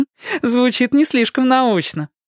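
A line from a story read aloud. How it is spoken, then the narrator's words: Laughing. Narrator (Russian): рассмеялась Кэти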